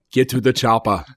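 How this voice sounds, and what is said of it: Arnold Schwarzenegger impression. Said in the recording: “Everyone can do Arnold Schwarzenegger.”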